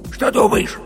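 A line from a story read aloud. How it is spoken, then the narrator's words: Heated whisper. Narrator (Russian): жарким шепотом спросил медвежонок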